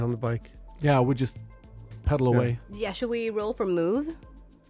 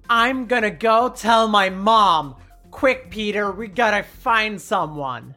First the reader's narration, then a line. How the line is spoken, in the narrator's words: L shouts